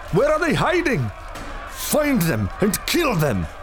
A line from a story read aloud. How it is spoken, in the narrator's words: Eliza cried